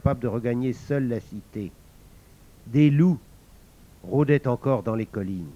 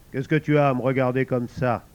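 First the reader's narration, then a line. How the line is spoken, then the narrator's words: Gruff tone. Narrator (French): commença-t-il d'un ton bourru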